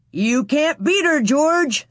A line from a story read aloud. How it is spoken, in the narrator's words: somebody shouted